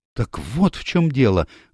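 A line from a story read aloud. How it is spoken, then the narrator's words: Exclamation. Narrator (Russian): воскликнула Мэри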